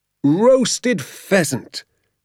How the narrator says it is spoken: he cried out, addressing the moon and the entire countryside

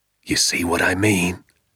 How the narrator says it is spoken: he whispered

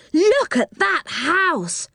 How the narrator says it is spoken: cried Joe

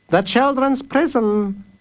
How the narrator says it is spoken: said Master Fish cheerfully

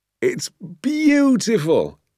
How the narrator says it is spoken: he cried

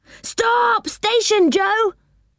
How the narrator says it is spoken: cried Rick

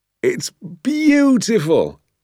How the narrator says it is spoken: he cried

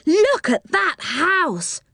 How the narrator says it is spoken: cried Jo

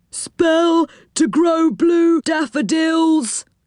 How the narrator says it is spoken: cried a gnome

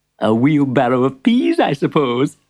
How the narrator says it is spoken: chuckled the shopkeeper

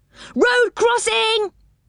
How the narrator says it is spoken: he cried

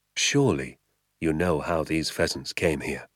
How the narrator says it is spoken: he said softly

